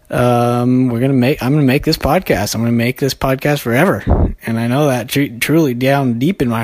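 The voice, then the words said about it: Out of breath, breathless speech. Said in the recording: “If it sounds like I'm out of breath, it's because I am.”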